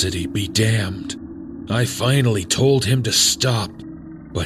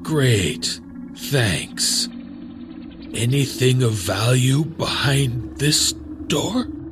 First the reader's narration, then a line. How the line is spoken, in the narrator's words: Carlos's voice cut, he was getting choked up